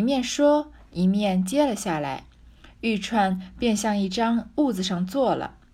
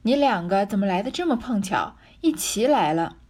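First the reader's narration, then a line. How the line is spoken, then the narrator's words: Laughing. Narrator (Chinese): 袭人、麝月、秋纹三个人……笑道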